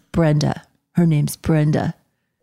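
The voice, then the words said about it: Spot-on male character voice impression. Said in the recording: “you do a Dylan impersonation ... it's obviously it's a girl voice, but like, it's so spot on. Like, it just inhabits Dylan so much. Like, you always nail it.”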